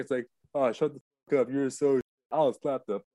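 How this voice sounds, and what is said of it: Imitates another person's voice. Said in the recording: “That's a very good imitation. Even the voice,”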